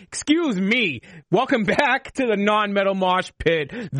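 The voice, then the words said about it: Put-on show host voice. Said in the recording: “doing my Mosh Pit voice”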